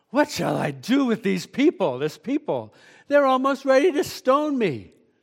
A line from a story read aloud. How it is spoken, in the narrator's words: Moses cried to the Lord